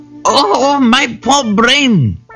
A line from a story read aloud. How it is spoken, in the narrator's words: squealed the Jackal